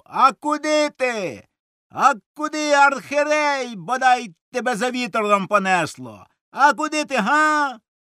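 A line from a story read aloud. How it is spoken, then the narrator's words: Furious ringing shout. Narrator (Ukrainian): люто дзвінко закричав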